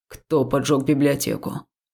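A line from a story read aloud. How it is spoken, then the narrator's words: Even-toned question. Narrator (Russian): ровным тоном задал некромант следующий вопрос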